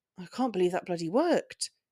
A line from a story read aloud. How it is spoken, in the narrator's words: he murmured under his breath